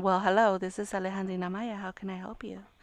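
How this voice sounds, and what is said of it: Put-on polite professional phone voice. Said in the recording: “her professional voice ... it's totally like a different tone of voice. Like, she doesn't talk that way.”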